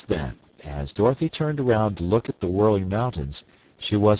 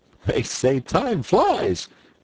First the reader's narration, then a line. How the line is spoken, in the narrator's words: laughed Button Bright